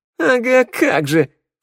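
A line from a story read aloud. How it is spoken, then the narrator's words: Snorting scoff. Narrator (Russian): фыркнула Шныряла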